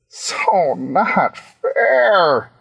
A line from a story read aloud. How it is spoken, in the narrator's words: he sobbed